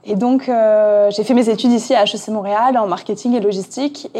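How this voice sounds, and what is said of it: French-from-France accent. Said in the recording (French): “Mon accent, pareil, ne me trompe pas, je viens de France. Je n'ai pas réussi à l'enlever”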